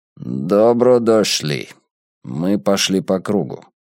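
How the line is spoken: Grumbling. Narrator (Russian): проворчал Драк Кайнен

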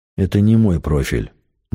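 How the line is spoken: Gloomy. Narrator (Russian): мрачно сказал Игнат

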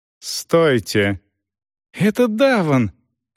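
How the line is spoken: Joyful exclamation. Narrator (Russian): радостно воскликнул Рейч

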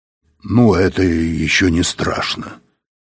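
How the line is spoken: Grumbled. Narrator (Russian): проворчал Быков

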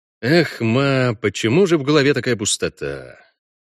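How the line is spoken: Sighing. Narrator (Russian): Он вздохнул

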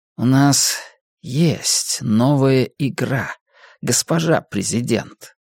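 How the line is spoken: Gloomy. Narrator (Russian): мрачно произнес он

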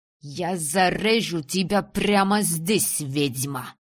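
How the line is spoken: Growl, heavy accent. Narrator (Russian): прорычал он с сильным акцентом

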